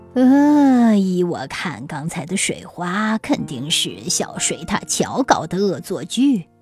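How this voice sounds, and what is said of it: Low, hoarse old man's voice. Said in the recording (Chinese): “青蛙老爷爷用低沉沙哑的声音说”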